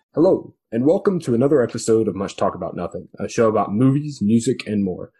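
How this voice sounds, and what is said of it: Clone Wars announcer voice. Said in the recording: “my Star Wars The Clone Wars announcer voice”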